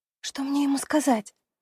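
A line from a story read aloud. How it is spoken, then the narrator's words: Whispered question. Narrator (Russian): Шепотом спрашиваю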